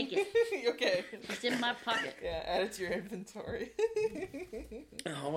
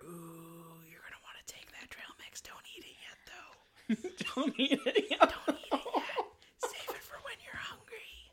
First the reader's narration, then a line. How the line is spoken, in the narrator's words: you hear Eris whisper in your ear